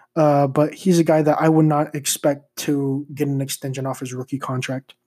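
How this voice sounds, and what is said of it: Dry, tired voice with slight stutter. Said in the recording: “my voice is a little dry, if I like stuttered a little bit. Did not sleep much last night.”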